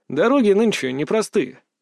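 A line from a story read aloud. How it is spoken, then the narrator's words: Calm reply. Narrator (Russian): ответил я спокойно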